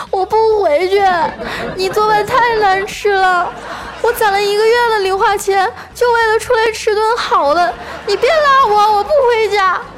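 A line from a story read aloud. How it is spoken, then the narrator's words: Child, hysterical crying. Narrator (Chinese): 小男孩啊……歇斯底里的哭喊着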